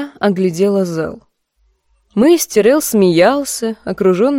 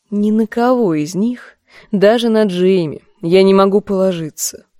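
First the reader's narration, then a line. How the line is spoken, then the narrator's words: Gloomy muttering to self. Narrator (Russian): мрачно говорила себе Серсея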